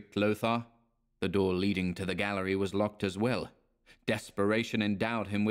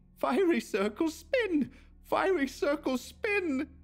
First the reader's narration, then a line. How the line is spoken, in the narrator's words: wild yells